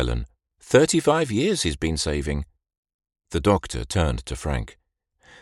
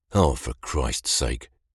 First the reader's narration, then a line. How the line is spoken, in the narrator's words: mumbled Frank